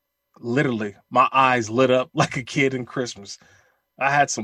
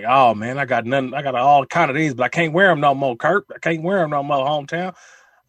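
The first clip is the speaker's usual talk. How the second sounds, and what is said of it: Imitates another person's voice. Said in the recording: “my Randy Moss impersonation”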